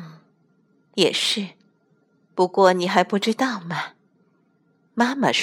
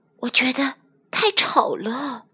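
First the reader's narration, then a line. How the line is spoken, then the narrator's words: Quiet. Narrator (Chinese): 哈琳娜小声说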